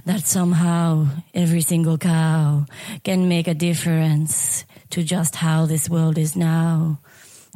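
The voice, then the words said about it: Lower-pitched put-on French accent, singing. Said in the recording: “I should do it in a lower French voice”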